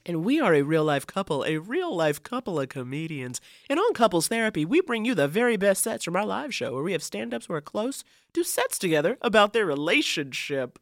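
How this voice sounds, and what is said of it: Smooth, sultry buttery voice. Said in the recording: “Sultry ... Oh, very professional ... Sometimes you gotta give a buttery voice.”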